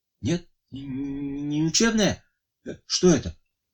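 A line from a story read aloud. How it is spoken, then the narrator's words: Weak voice. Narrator (Russian): Слабым голосом спрашивал он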